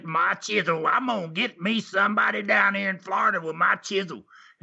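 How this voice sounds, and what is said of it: Old Tennessee accent. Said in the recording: “He had that old in a Tennessee accent”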